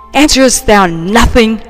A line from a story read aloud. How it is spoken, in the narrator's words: he exclaimed